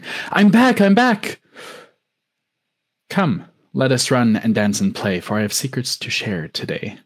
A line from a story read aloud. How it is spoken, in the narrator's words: said the wind